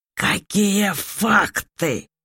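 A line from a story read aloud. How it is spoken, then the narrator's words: Barked. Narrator (Russian): рявкнул он с кровати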